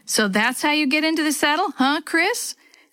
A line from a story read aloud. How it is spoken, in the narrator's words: laughed